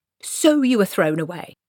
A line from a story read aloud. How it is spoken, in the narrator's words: snapped Granny